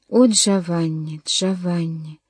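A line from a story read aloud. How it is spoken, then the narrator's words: Moaning. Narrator (Russian): стонал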